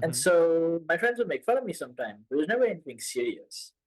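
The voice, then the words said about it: Mixed Indian and American accent. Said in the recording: “The way that my accent sounds, it's a mix, right? It's a mix of Indian and American.”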